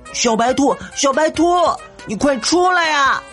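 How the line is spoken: Desperate shout. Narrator (Chinese): 他拼命的喊

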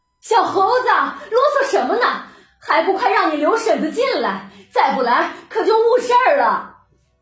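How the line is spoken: Old woman shouting from inside. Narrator (Chinese): 只听门内有个老婆子向外喊着

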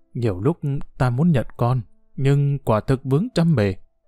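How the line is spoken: Trembling voice. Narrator (Vietnamese): Ông cự phách run run

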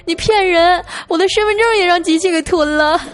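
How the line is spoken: Tearful girl. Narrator (Chinese): 小姑娘又一脸哭腔的 说

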